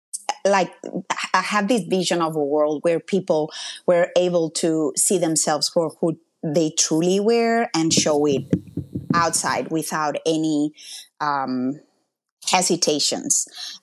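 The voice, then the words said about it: Spanish accent. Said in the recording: “I'm from Spain. This is my accent.”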